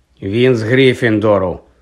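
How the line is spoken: Gloomy voice. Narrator (Ukrainian): відразу ж озвався Гаррі похмурим голосом

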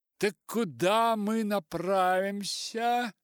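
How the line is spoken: Shouted. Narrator (Russian): крикнула она

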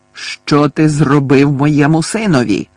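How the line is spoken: Menacing growl. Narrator (Ukrainian): Загрозливо прогарчав

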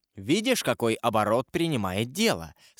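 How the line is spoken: Plain. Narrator (Russian): сказал Данглар Кадрусу

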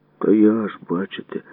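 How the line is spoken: Sighing. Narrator (Ukrainian): зітхнув я

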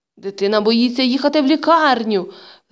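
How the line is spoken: Stern aunt shouting. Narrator (Ukrainian): знову закричала сувора тітонька

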